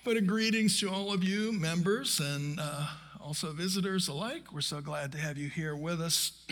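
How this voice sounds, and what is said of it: Hoarse, froggy voice. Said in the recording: “I'm a little froggy, as you can tell. I thought my voice was better a little earlier, but maybe it'll come back.”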